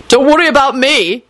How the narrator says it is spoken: Quentin yelled into the air

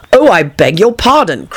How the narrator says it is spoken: cried Alice hastily, afraid she had hurt the poor animal's feelings

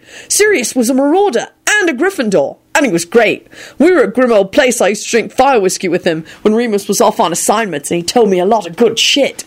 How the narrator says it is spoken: he added triumphantly

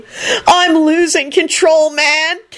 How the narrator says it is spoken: Kenny shrieked

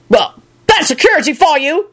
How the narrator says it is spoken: one of them barked at the other

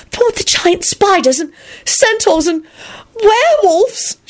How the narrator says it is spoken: she squealed

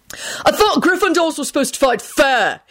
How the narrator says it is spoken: he shouted down at Harry

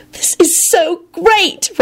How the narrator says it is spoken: Rosie yelled and began bawling happily

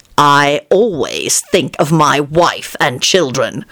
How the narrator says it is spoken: Lupin replied in an outraged voice

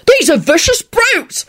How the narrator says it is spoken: the constable yelped out

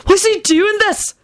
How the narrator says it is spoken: Benji said wildly to Sirius

